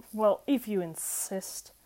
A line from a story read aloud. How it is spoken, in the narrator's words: Crowley mumbled, hissing slightly